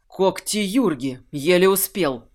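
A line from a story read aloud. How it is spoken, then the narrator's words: Breathless exhale. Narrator (Russian): выдохнул он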